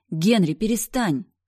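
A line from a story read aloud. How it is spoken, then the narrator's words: Female shouting. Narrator (Russian): орала я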